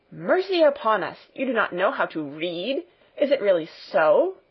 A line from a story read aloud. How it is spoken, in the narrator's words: exclaimed Fräulein Rottenmeier, greatly horrified